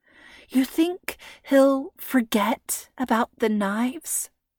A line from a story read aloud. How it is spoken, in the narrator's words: Freya whispered